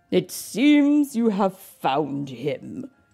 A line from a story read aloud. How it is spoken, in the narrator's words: chuckled the king